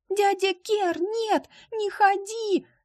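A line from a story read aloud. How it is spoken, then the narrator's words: Shrieking. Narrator (Russian): завизжала Полина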